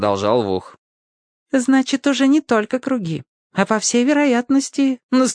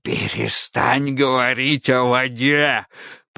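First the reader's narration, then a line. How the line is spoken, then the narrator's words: Hoarse rasp. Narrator (Russian): прохрипел Автоматей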